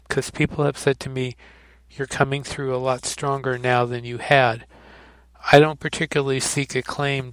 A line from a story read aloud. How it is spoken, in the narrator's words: George said